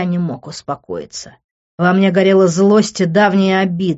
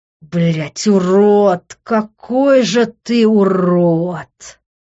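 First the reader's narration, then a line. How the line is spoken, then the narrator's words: Anguished groan. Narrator (Russian): простонал я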